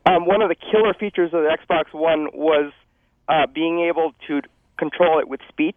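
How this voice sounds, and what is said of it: Hoarse voice. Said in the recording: “I'm a little hoarse because I've been sick.”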